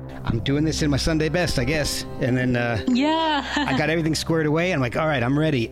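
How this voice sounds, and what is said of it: Slightly out of breath. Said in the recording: “I'm a little out of breath from running up and down the stairs”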